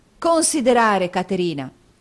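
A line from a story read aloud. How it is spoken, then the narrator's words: Angry outburst. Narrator (Italian): esclamò Nicola nell'impeto di collera da cui era assalito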